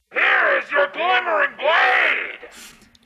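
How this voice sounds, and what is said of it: Loud yelling. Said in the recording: “Stop yelling. ... Yeah, it is unnecessary. ... I only have one volume now!”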